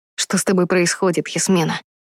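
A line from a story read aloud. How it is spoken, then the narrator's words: Quiet question. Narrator (Russian): тихо спросил охотник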